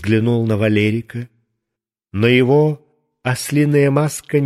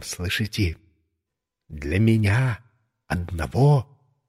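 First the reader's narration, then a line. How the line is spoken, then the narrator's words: Whisper. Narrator (Russian): я шепнул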